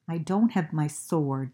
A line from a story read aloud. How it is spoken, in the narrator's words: said Franklin